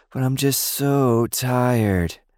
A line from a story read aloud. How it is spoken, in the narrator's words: Lily protested lazily